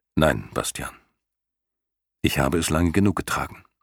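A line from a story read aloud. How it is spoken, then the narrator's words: Gentle. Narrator (German): wiederholte sanft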